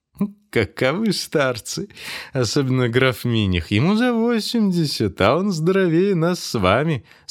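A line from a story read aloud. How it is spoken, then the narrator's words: Professor laughing. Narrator (Russian): сказал, смеясь, профессор Штеллин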